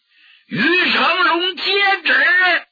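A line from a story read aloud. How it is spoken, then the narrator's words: Loud shout. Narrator (Chinese): 明珠高声喝喊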